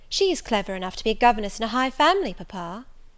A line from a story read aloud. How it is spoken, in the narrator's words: cried Rosamond